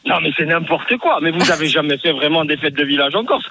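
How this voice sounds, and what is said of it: Corsican French accent. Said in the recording (French): “on adore non, l'accent.”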